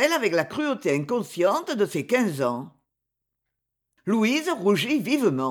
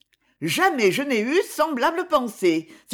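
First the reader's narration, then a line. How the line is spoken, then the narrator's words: Indignant exclamation. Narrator (French): s'écria-t-elle avec indignation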